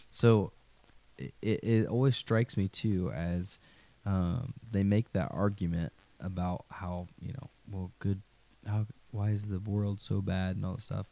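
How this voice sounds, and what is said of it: Voice with a cold, coughing. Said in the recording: “I've got a little bit of a cold, so I'm coughing a little bit.”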